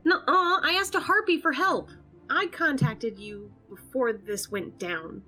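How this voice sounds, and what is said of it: Raised, angry voice. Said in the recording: “I shouldn't have raised my voice.”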